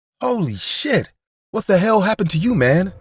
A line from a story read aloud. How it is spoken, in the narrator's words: exclaimed Bill